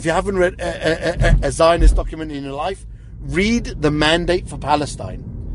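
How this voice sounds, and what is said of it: British accent. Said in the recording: “People can hear your British accent, and I caught earlier also your South African words there... originally born in South Africa, but British, raised British”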